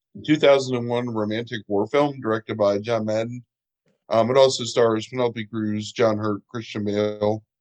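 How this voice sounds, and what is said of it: Scratchy, muffled sick voice. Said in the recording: “apologize for my voice. ... I was actually pretty sick today, so I have kind of a scratchy throat, so I sound like I'm underwater”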